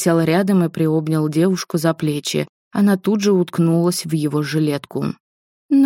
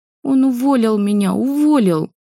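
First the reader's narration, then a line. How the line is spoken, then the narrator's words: Sobbing harder. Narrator (Russian): пуще прежнего разрыдалась она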